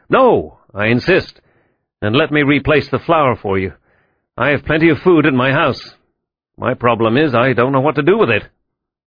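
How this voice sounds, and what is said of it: American accent. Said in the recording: “I'm afraid the uniform and the accent gave you away. Besides, only an American officer”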